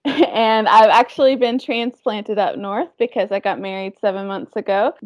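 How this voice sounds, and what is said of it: Southern US Georgia accent. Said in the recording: “I don't know if you can tell it from my accent, but I am from Georgia.”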